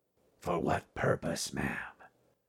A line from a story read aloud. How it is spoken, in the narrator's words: asked, his voice low